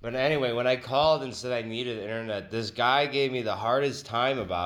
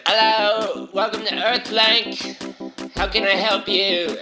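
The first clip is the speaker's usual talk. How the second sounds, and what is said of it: Poor put-on British accent. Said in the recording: “his British accent every other episode, and it's not very good”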